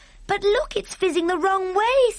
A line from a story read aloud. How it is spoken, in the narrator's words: Sophie cried